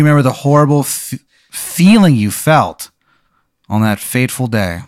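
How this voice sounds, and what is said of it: Usual voice. Nothing is said of it.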